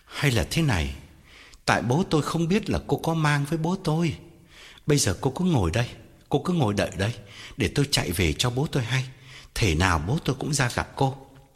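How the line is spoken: Gentle. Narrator (Vietnamese): Anh dịu dàng bảo

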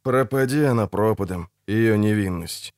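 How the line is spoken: Grumbled. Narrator (Russian): буркнул Геральт

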